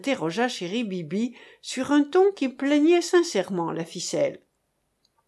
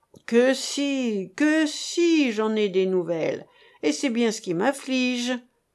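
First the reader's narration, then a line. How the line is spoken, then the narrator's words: Sighing explanation. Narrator (French): expliqua Monsieur Hilaire en soupirant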